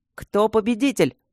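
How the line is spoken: Shout. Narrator (Russian): крикнул он

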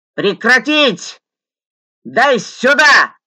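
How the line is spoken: Barking shout near ear. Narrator (Russian): гаркнул Квит над розовым ушком благотворительницы

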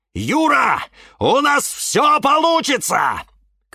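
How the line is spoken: Shouted. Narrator (Russian): кричал кактус Кирилл

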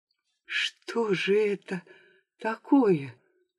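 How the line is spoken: Strangled whispered question. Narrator (Russian): спросил он сдавленным шепотом

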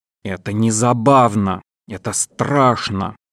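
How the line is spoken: Whispered. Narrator (Russian): прошептал он

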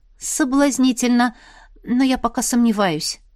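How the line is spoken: Sighing. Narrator (Russian): вздохнула я

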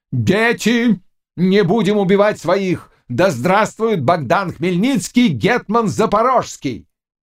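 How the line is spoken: Powerful impassioned shout. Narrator (Russian): Пан Кшичевский с горящими глазами кричал мощным голосом

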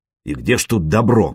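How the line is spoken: Grumbling. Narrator (Russian): проворчал Наслав

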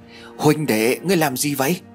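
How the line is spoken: Flustered, trembling, hurried. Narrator (Vietnamese): Tài xế bối rối run rẩy, vội vàng hỏi

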